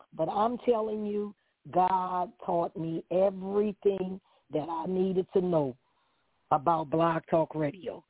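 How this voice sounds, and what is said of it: New Orleans accent. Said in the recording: “I'm from New Orleans. I have an accent”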